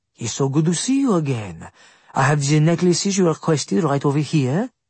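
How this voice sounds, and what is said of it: French accent. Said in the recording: “he said with a French accent.”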